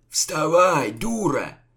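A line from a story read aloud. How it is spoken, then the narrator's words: Growled. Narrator (Russian): рыкнул угрим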